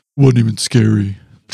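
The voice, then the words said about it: Imitation in a very deep voice. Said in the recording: “in an even deeper voice.”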